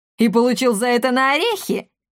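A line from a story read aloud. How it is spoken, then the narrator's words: Laughing louder. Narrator (Russian): Каптильда Гранже засмеялась еще громче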